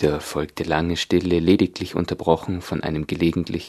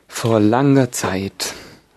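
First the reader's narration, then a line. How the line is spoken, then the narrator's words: Deep sigh. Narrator (German): sagte die falsche Schildkröte endlich mit einem tiefen Seufzen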